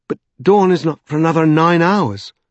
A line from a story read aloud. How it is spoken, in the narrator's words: exclaimed Stephen in horror